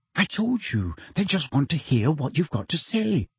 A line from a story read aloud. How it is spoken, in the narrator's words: said Hermione soothingly